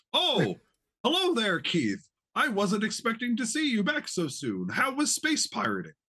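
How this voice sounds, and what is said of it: Put-on character voice. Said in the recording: “imagine my best impression of Ryan Costello”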